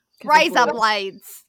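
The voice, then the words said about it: Put-on Australian accent. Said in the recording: “Australian for my daughter. It's her favorite accent.”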